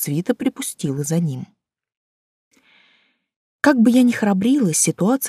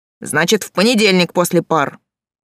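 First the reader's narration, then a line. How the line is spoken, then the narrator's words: Barked. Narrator (Russian): рявкнул Олег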